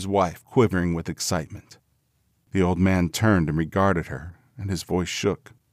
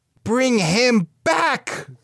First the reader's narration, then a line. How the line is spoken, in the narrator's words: cried the old woman